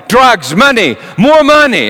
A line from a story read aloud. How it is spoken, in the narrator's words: looked like he had been intoxicated, kept yelling